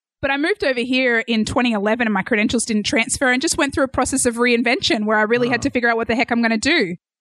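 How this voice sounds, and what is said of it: Australian accent. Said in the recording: “as you can hear, I'm from Australia ... It's definitely Australian.”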